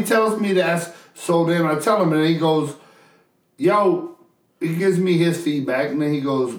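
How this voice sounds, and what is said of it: Usual voice. Nothing is said of it.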